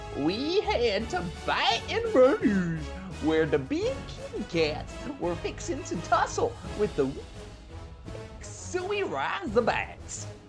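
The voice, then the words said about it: Fake Southern accent. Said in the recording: “talk in Brian Kelly's fake Southern accent”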